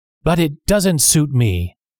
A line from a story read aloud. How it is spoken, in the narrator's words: shouted